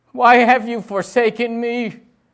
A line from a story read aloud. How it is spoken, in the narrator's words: He shouted a question to the heavens